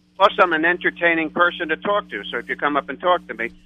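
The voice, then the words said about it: New York accent. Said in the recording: “I have a New York accent”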